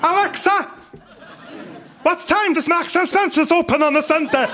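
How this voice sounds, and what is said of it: Put-on North Wales accent. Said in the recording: “It's not always easy having a North Wales accent ... you sound like my North Walian wife”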